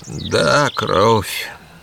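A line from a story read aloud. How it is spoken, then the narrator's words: Muttered. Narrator (Russian): пробормотал он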